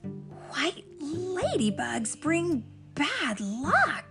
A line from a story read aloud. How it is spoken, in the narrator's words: Iris gasped